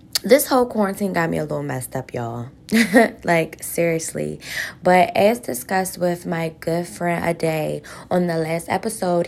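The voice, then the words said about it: Slightly raspy voice. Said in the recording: “my voice sounds a little bit raspy”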